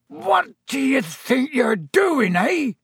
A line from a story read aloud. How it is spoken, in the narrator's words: he roared, so suddenly